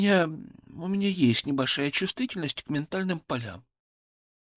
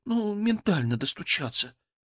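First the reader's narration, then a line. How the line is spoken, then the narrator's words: Ashamed whisper. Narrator (Russian): прошептала она, словно призналась в чем-то постыдном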